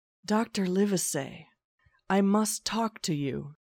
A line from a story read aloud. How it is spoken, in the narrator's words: whispered